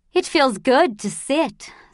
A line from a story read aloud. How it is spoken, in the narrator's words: sighed Mother